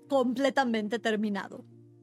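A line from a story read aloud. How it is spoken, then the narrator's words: Plain. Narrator (Spanish): dijo el pintor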